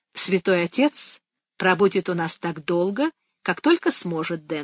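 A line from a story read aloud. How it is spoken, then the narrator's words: Plain. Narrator (Russian): сказала бабушка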